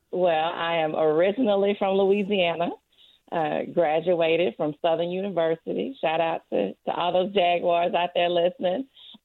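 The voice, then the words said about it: Southern US twang accent. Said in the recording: “You got a southern twang. Sounds like you come from a nice warm place.”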